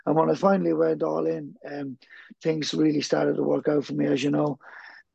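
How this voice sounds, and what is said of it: Irish accent. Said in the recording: “as we can tell in the accent, an Irishman”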